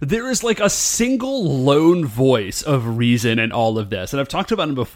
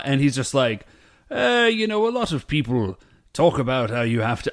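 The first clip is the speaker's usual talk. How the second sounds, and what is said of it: Vague put-on British accent. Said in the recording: “I'm not doing his accent right. I'm just doing sort of a vague British accent.”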